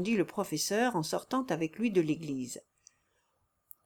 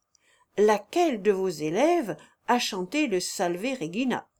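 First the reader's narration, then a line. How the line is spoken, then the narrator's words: Exclaiming. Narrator (French): s'écria-t-il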